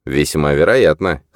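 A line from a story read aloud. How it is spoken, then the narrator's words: Wry snort. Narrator (Russian): хмыкнул Христиан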